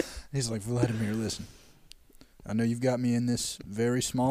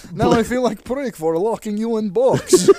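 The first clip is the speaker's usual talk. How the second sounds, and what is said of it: Put-on Russian accent. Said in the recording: “now you have a Russian accent”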